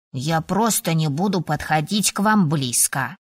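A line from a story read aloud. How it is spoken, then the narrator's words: Dragon's snort, telepathic. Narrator (Russian): фыркнул дракон в моей голове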